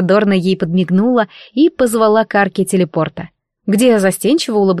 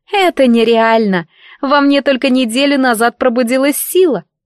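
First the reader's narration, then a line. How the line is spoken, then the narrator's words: Sigh. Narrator (Russian): вздохнула Дана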